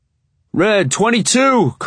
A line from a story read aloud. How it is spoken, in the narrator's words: Coach yells